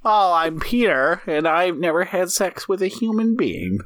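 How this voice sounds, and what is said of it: Exaggerated nerdy character voice. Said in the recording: “your normal nerd voice ... I tried to make it even more nerdy and more virgin-y.”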